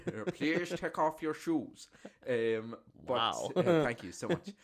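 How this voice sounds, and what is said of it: Imitated foreign security guard accent. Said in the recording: “I don't know where that accent is.”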